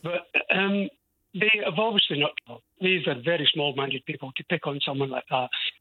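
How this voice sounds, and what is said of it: Scottish accent. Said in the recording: “oh, you're so Scottish, you've never lost your accent”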